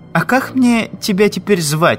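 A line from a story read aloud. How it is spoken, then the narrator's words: Laughing. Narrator (Russian): засмеялась Раиса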